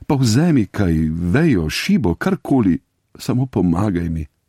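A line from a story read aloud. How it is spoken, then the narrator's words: Pleading. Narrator (Slovenian): Riba pa je prosila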